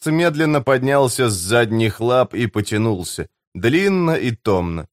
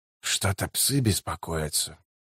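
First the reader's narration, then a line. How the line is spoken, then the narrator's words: Muttered. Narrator (Russian): пробормотал Котильон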